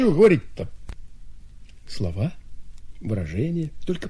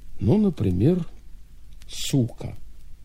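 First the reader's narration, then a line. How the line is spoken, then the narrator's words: Uncertain. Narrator (Russian): Клягин неуверенно произнес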